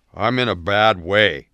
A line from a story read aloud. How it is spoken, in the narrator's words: Jake slurred